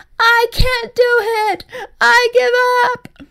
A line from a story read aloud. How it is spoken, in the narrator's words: EJ wailed